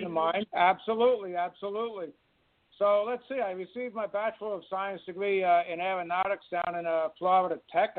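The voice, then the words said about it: New York accent. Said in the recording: “I'm from New York City, in case the accent hasn't given it away. ... I love the accent.”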